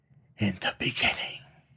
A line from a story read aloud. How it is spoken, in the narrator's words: she whispered